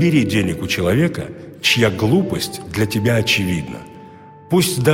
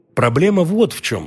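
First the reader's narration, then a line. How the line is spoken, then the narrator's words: Plain. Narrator (Russian): сказал ученик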